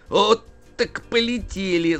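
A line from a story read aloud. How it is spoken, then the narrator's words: Laughing. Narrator (Russian): засмеялся Микроша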